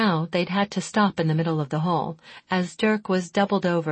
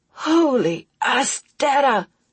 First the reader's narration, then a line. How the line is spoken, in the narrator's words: he gasped